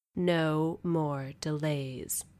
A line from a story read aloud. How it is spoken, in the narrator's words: the woman said, her voice resonant